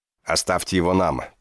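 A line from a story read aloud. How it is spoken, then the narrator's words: Guard growling. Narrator (Russian): прорычал один из охранников Мардина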